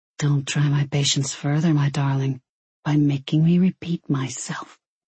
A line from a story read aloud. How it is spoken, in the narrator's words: he whispered silkily